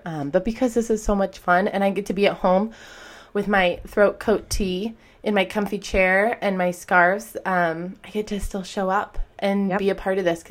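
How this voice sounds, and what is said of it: Slightly rough, under-the-weather voice. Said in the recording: “I am coming down with whatever is out in the world right now. So you might hear me cough or sniffle and my voice sounds a little whatever ... if you hear a little rumbling from me”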